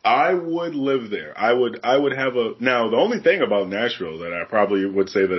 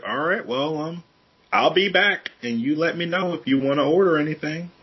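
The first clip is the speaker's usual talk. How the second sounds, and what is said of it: Put-on Southern accent. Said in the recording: “my Southern accent ... Oh, that it's so on point.”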